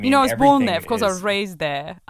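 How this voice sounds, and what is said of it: Put-on posh British accent. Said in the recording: “Just really, really trying to work this accent. ... You sound like Phoebe Waller-Bridge.”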